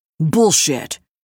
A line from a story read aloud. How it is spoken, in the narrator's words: Evan snapped